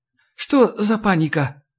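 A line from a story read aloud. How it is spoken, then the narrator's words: Sleepy question. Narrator (Russian): сонно моргая, спросила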